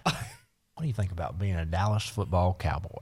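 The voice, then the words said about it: Impression of Jerry Jones. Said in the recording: “your Jerry impersonation”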